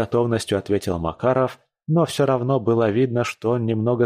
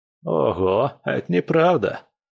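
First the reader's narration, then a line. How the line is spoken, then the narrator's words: Laughing. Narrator (Russian): рассмеялся Лис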